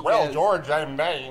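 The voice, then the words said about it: Put-on Michigan accent, convincing. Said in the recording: “my best Michigan accent ... It's a very, very good Michigan accent.”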